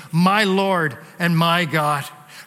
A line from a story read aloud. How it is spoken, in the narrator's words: you can exclaim